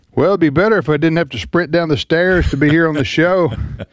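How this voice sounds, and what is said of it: Out of breath, panting speech. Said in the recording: “I'm a little bit out of breath. Just a little bit.”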